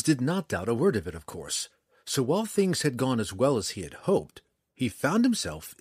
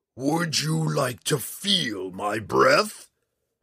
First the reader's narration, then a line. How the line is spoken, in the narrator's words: Hephaestus snarled